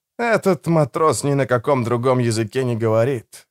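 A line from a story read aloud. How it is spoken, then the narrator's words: Sigh. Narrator (Russian): вздохнул Родриго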